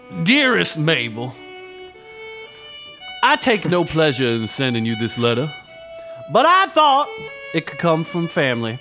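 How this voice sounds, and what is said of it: Put-on Southern lawyer accent. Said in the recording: “I'm going to do the accent again ... maybe I'll do like kind of a Southern lawyer one on this one.”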